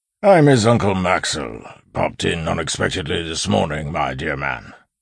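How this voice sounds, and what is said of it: Gruff voice, no rural accent. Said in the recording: “voice altered to sound gruff and lose all of its rural accent”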